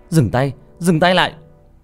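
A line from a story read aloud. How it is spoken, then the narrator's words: Loud shout. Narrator (Vietnamese): tôi hét lớn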